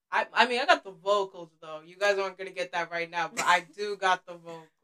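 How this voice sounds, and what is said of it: Sore-throated voice. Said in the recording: “I have a sore throat right now”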